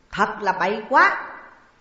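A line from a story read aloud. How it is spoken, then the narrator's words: Shout. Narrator (Vietnamese): tiếng quát văn vọng của Ngũ Mai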